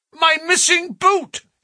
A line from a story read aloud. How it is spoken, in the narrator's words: he cried